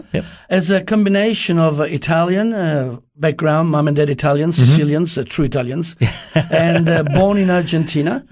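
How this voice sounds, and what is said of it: Mixed international accent. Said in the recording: “got a very interesting accent because up until the age of 18, ... lived in five different countries”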